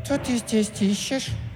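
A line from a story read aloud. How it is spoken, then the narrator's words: Thin lisping voice. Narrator (Russian): прошепелявила она тоненьким голоском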